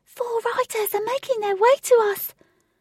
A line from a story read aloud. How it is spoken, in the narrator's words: Jane, from high up in the sky, shouted